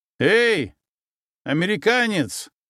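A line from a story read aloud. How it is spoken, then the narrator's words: Loud shout. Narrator (Russian): громко крикнул я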